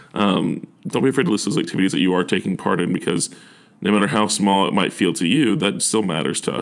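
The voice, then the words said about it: Choked-up, emotional voice. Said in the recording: “I'm a little choked up.”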